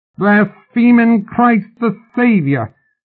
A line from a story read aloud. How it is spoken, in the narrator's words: the tall man screeched, his voice rising